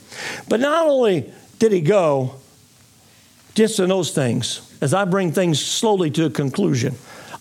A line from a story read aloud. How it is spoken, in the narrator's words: I said slowly